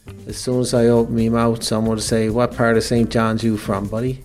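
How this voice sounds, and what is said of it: Newfoundland St. John's townie accent. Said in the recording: “You wanted to record my voice because of my accent, and I assume it's because I'm a townie ... a great accent”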